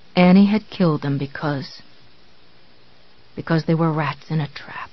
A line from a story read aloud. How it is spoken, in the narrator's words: he whispered